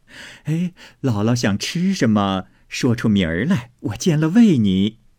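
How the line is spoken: Laughing. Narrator (Chinese): 凤姐笑道

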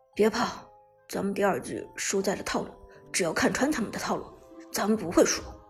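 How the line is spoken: Low voice. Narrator (Chinese): 低声说道

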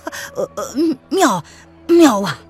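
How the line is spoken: Startled, then laughing. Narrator (Chinese): 陈瑞吉愣了一愣，忽然笑道

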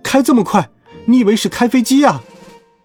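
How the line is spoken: Woman shouting while running. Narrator (Chinese): 中年妇女，她一边跑一边喊

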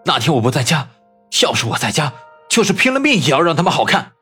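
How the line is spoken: Through gritted teeth. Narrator (Chinese): 朱文斌咬牙切齿地说

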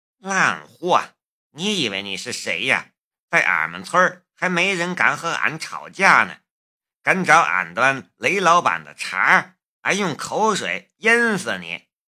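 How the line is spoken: Muttered cursing. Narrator (Chinese): 陈阿娇 嘀嘀咕咕的骂人

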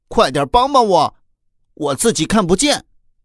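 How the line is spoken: Nearly shouting. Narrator (Chinese): 小龙人几乎是喊着

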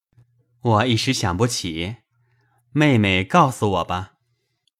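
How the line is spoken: Laughing. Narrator (Chinese): 宝玉笑道

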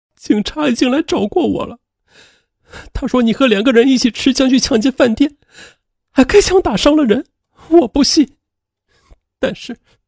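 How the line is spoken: Crying. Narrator (Chinese): 王咪咪就哭了起来

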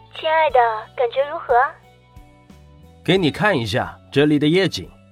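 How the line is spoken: Smiling question. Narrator (Chinese): 女友雪莉笑着问道

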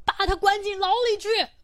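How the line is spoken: Shouting. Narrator (Chinese): 有的先喊

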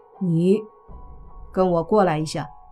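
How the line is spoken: Cold, flat. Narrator (Chinese): 莫凡冷眼看着杨云飞，淡淡的说道

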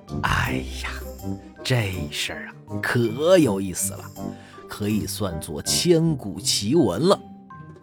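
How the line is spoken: Unhurried amused monk. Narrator (Chinese): 那和尚啊，不紧不慢地笑着说

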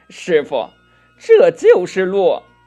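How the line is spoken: Laughing. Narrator (Chinese): 悟空笑道

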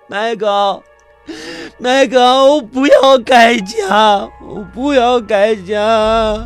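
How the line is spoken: Shrill sobbing wail. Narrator (Chinese): 院长凄厉的声音…伏在麦高的肩头哭喊着

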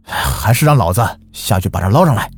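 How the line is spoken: Determined, gritting teeth. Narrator (Chinese): 那人一咬牙说

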